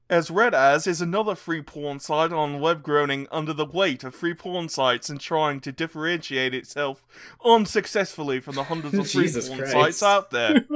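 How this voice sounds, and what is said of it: Awful put-on British accent. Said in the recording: “this is written by a British man, so you know what you have to do... My awful British accent.”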